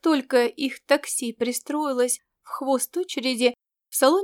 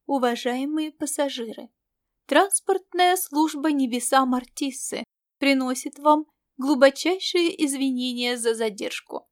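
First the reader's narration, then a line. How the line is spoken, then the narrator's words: Purring Batman-like voice. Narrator (Russian): промурлыкал автодиспетчер, очень похожий на Бэтмена под маской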